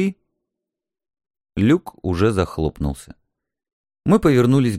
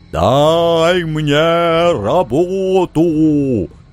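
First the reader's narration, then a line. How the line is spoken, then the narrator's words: Demon roaring. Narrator (Russian): взревел демон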